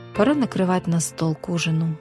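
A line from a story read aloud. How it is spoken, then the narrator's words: Sighing. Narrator (Russian): вздохнула она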